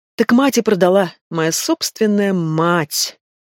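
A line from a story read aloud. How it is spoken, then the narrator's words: Drunken drawl, girl. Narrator (Russian): пьяно протянула девочка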